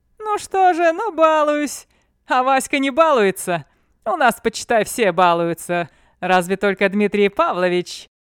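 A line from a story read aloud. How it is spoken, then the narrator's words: Laughing. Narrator (Russian): слышно было, как говоривший рассмеялся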